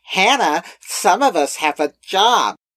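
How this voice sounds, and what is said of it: Imitates another person's voice. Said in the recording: “That is your impression of everyone you do an impression of ... none of us sound like that”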